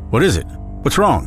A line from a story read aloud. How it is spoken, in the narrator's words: shouted